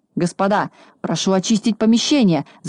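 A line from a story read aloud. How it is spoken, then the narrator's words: Frightened shout. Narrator (Russian): закричал испугавшись Хабс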